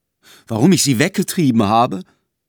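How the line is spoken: Called out. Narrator (German): rief K

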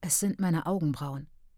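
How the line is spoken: Unconvinced whisper. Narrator (German): flüsterte dummerweise und ohne Überzeugung

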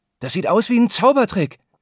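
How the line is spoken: Excited exclamation. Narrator (German): ruft Nico begeistert

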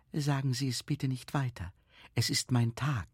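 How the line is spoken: Whisper. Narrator (German): Die Frau beugte sich nach vorne und flüsterte

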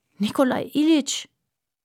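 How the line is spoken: Groaning. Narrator (German): stöhnte Aljoscha

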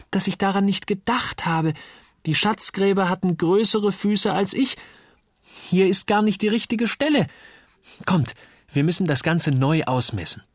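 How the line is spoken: Excited shout. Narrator (German): rief jetzt auch Uli begeistert

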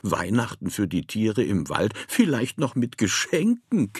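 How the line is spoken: Woman giggling. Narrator (German): kicherte sie

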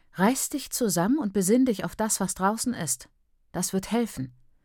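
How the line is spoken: Mother, dry flat voice. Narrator (German): sagte meine Mutter, ihre Stimme so trocken wie die Hüllblätter von Mais

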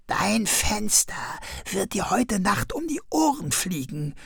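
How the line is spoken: Whispered. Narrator (German): flüsterte Krummel ihm zu

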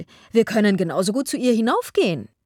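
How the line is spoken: Called out. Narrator (German): rief Miss Steele

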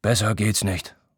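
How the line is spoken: Sighing. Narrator (German): seufzt er

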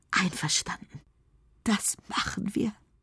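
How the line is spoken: Breathless whisper. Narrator (German): Enne muss durch die vielen Umarmungen nach Luft schnappen und kann nur noch flüstern

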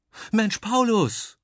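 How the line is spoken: Shrieking. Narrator (German): kreischt Biene

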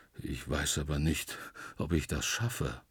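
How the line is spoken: Murmuring. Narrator (German): Der Wandelwurz legt seine borkige Stirn in tiefe Falten und murmelt

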